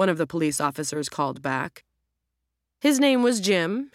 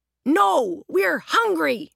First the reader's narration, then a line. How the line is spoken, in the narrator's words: Roger shouted